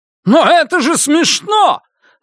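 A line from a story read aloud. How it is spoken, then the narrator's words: Sharp shout. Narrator (Russian): резко выкрикнул Йен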